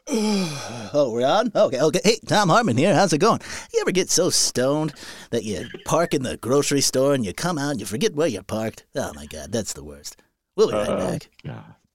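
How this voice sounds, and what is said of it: Imitates another person's voice. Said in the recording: “that old Tom Hartman imitation”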